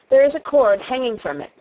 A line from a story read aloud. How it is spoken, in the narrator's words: said Colin